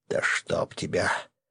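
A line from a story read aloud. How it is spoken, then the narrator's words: Whispered. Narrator (Russian): прошептал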